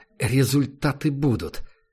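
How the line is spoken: Forced, trying to sound confident. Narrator (Russian): со всей возможной уверенностью выдавил из себя заместитель начальника СБИ

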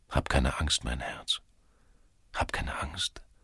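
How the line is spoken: Tender whisper. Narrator (German): flüsterte er ihr zu

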